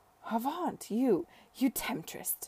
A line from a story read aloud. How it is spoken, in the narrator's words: she cried